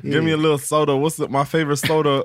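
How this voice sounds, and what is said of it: Put-on lazy Southern accent. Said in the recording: “I'm really from the south ... You don't got to pronounce as much with this accent ... you're lazy with it”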